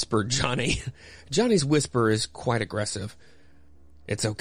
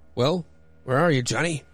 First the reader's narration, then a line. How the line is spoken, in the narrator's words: Impatiently called Lamont